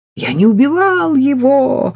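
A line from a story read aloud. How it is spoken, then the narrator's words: Shrieking. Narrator (Russian): завизжал Саша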